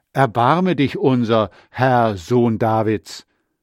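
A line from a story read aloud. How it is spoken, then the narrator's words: Crying out loudly. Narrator (German): zwei Blinde riefen laut und sagten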